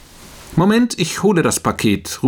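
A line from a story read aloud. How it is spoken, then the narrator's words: Calling out. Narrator (German): ruft er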